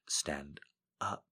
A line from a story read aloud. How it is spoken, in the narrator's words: said softly